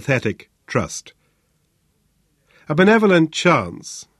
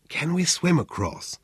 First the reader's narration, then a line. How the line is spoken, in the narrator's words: he asked Muhammad in a whisper